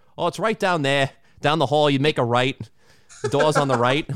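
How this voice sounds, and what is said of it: Imitated Boston accent. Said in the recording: “the first five people I talked to in Boston, they all had that Boston accent, all of them ... I'm like, "Okay, man, all right, that's one."”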